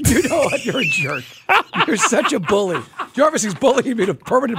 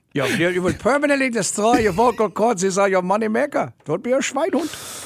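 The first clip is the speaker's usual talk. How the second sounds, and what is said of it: Put-on German accent impression. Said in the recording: “Do an impression. ... I'll do an impression. ... German accent ... Dr. Klein doesn't even have an accent like that, but that's the only voice I can do right now.”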